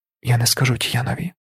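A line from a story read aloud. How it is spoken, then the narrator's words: Son whispering. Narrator (Ukrainian): прошепотів син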